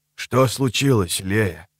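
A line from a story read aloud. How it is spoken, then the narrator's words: Quiet question. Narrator (Russian): спросил он ее тихо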